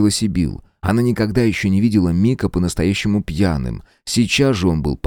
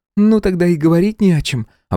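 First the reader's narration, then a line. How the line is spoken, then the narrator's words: Relieved sigh. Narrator (Russian): облегченно вздохнула Сибил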